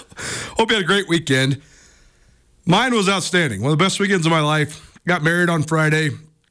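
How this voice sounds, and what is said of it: Out of breath, gasping. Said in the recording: “I'm out of breath because I was sprinting ... with me gasping for air”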